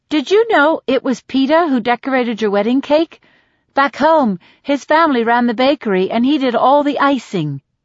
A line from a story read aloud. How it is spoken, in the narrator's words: says Deli brightly